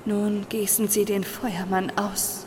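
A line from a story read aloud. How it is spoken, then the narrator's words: Whispered. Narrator (German): flüsterte sie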